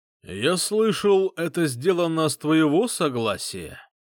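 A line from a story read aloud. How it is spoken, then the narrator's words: Loud, clear question. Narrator (Russian): спросил Таргин громким, четким голосом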